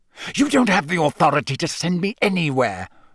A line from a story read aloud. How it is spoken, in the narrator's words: Snape hissed, as though angry with himself